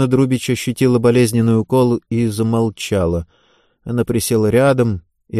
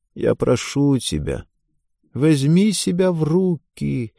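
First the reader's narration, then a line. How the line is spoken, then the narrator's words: Creaky, broken, pleading voice. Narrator (Russian): каким-то скрипучим, разбитым голосом произнесла она, пытаясь достучаться до разума дочери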